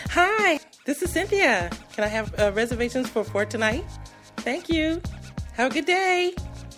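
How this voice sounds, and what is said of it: Bubbly, cheerful, higher-pitched voice. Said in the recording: “my white girl voice ... just real bubbly, just cheerful, cheerful, cheerful ... I just raise the octave, just take the bass out of my voice.”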